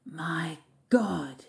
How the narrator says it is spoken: he breathed

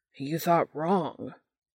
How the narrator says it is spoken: Almost angry, Dean growls

